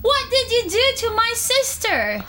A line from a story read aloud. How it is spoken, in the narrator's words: screamed Catherine